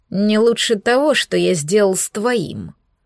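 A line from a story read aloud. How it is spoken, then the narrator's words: Hissed in reply. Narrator (Russian): прошипел Альтор в ответ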